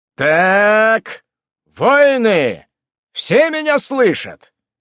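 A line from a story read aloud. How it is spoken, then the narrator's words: Commanding voice. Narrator (Russian): Командирским голосом задал риторический вопрос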